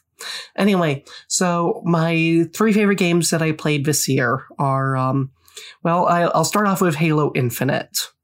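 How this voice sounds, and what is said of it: Sick, scratchy voice. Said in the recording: “apologize for my voice. I am very sick right now. So if it sounds, starts sounding scratchy or keeps going like in and out ... my voice is just totally off”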